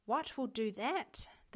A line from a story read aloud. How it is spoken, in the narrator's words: the girl asked anxiously